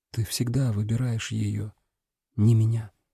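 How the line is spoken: Barely audible reply. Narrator (Russian): Вера ответила тихо, так что я скорее догадался, чем услышал

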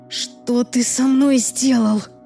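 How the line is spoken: Hissing voice. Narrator (Russian): мой голос прозвучал скорее как шипение

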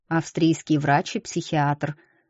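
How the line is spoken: Plain. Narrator (Russian): ответил Марине

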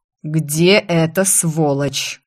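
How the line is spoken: Phlegmatic father growling. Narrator (Russian): прорычал мой флегматичный отец

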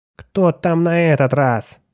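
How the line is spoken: Grumbled. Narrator (Russian): проворчал Отто

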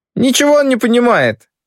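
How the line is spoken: Giggling. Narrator (Russian): хихикает великая княжна

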